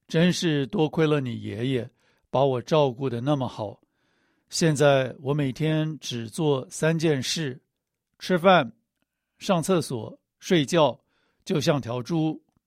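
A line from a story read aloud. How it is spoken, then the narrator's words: Laughing. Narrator (Chinese): 笑着说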